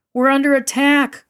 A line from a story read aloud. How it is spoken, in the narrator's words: one of the children screamed